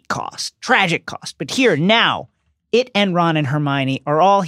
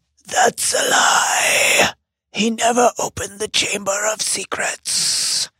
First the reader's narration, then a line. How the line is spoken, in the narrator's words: Aragog croaks